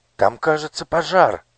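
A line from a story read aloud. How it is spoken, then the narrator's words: Exclaiming. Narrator (Russian): воскликнула Оля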